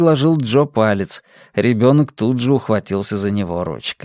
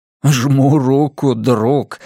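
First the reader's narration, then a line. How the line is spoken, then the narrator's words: Laughing. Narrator (Russian): рассмеялся Блейз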